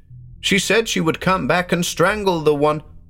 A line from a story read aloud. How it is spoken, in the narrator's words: Weir's niece suddenly shouted